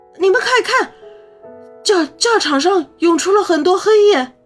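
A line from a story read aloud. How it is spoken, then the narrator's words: Loud alarmed cry. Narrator (Chinese): 元凤大声惊呼起来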